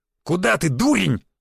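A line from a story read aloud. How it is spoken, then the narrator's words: Growling. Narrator (Russian): зарычал на него Буян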